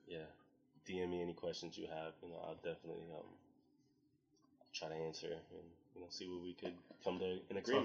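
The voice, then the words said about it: Low sultry late-night voice. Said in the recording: “my sexy voice comes out late at night ... when ... starts talking in the late night voice”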